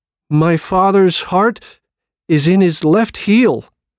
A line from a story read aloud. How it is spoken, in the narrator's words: He said in a shaky voice